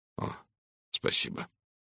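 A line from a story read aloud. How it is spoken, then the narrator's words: Trembling voice. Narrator (Russian): дрогнувшим голосом произнес он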